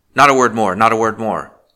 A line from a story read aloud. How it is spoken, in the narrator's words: he cried harshly